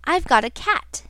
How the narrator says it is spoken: cried the boy

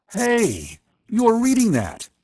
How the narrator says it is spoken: he cried

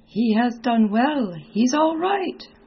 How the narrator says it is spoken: laughing, cried

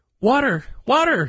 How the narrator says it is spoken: cried in his despair

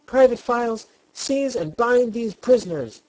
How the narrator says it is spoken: screamed the queen

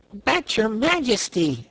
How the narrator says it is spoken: exclaimed Corporal Waddle in protest

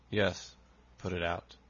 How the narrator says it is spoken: he said in a hollow tone

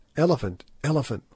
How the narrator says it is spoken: whispered the Kaffirs

